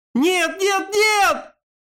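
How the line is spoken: Screaming. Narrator (Russian): завопила Калей

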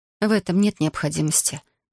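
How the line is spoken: Soft speech. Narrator (Russian): мягко говорю я

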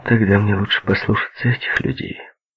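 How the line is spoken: Reply with a sigh. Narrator (Russian): ответила она, вздохнув

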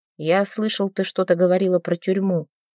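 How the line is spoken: Quiet. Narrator (Russian): тихо произнес он

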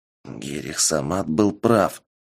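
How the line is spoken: Quiet whisper. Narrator (Russian): тихо шепнул альбинос

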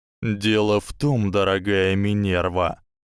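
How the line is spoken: Smirking drawl. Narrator (Russian): протянул Северус, не до конца убрав свою обычную усмешку

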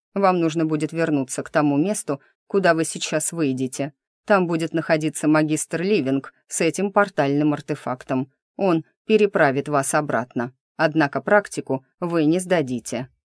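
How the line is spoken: Stern correction. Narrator (Russian): строго поправил мужчина

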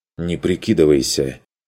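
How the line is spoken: Angry, forced out. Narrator (Russian): зло вытолкнул Курт

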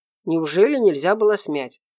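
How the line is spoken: Grumbling. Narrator (Russian): ворчал он

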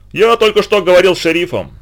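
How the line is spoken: Irritated. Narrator (Russian): сказал раздраженно

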